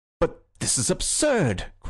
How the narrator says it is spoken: cried the policeman, clasping his hands with an excitement uncommon in persons of his figure and costume

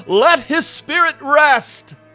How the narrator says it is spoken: When Arthur heard this testimony about his father, he sprang to his feet, pointed a finger at the sky, and yelled

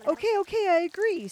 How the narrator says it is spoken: screamed Joseph, afraid for his life

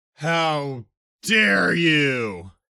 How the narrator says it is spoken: Jupiter roared

